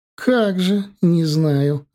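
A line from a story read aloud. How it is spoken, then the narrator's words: Mischievous chuckle. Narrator (Russian): озорно хохотнула та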